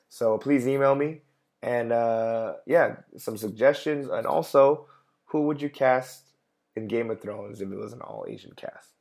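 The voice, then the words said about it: Tired, failing voice. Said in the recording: “I've talked for an hour, and my voice is going.”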